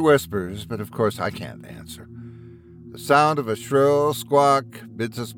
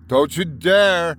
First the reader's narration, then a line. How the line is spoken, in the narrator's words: I shouted at them